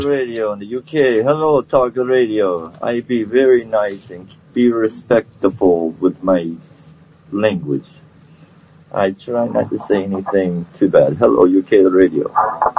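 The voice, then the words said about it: Put-on Russian accent. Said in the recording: “I know I'm trying to talk Russian. I'm not Russian, but I'm American.”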